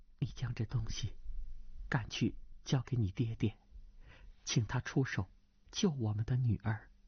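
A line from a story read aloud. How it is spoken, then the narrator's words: Low voice. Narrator (Chinese): 低声道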